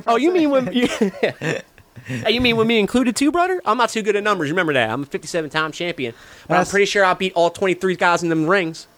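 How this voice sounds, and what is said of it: Imitates another person's voice. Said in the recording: “I can't do the accent. ... so I don't even try when I do an AJ.”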